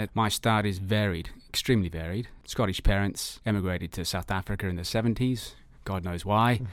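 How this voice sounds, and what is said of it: Mixed, jumbled-up accent. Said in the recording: “You obviously got a bit of an accent. ... I do have an accent. It's a bit of a jumbled up accent”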